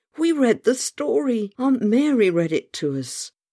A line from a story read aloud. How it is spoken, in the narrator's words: cried